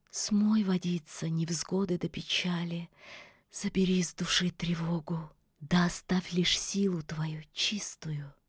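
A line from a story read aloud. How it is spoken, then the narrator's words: Whispered incantation. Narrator (Russian): яга зашептала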